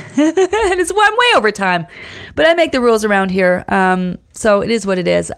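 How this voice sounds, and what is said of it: Strained, failing voice. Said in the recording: “My voice is failing me.”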